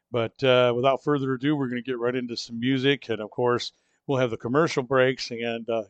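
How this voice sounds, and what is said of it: Sick-sounding voice. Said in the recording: “As you can tell by my voice, I'm still struggling a little under the weather.”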